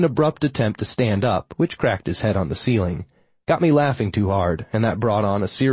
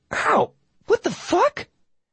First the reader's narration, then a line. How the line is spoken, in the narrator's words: a girlish squeal followed by a high-octave